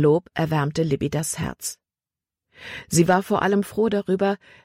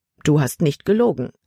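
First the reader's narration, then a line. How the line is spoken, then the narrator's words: Plain. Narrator (German): antwortete sie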